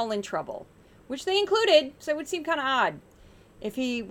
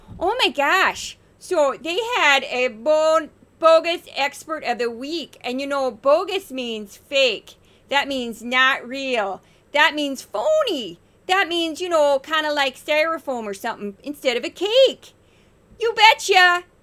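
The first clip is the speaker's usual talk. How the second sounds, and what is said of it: Put-on Minnesota accent. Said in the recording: “I'm doing my Minnesota accent for you ... that's my Minnesotan accent.”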